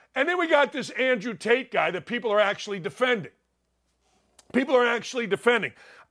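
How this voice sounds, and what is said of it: Yelling, fired-up loud delivery. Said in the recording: “why are you yelling at me? Because I'm fired up.”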